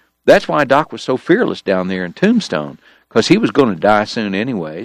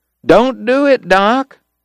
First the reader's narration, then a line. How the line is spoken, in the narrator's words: that's what I hollered